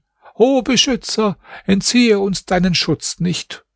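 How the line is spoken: Calling out. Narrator (German): Er rief dann

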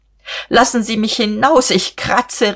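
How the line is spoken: Laughing half-shriek. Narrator (German): rief sie und wollte kreischen, aber sie musste lachen

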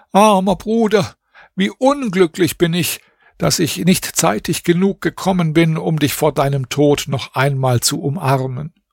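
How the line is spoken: Tearful cry. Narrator (German): rief mit Tränen in den Augen

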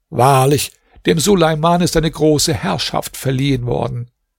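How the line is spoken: Exclaimed. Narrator (German): rief

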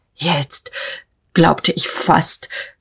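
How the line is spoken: Stammering. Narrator (German): stammelte Notgroschen

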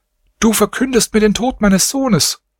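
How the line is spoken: Mother crying out, sobbing. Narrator (German): Die Mutter rief heftig weinend

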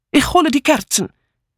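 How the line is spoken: Called out. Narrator (German): rief Mitzi

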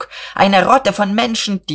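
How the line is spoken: Shout. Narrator (German): schrie Buck

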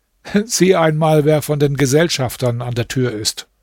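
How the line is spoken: Laughing. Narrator (German): Der Kalif lachte und sagte

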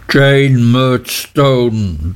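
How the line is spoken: Thundering. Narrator (German): donnerte Mr

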